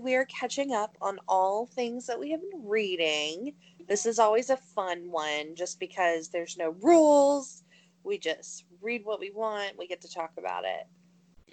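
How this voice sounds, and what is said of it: Scratchy voice. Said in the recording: “my voice is a little scratchy today. I may have sang for 4 hours yesterday.”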